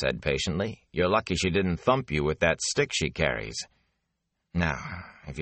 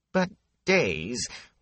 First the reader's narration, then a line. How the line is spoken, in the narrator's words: Wit whined